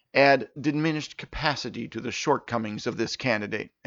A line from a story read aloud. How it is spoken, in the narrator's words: Urtesh mutter